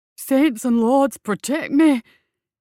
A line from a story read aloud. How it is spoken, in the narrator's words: he gasped, as terror lent fresh speed to his flight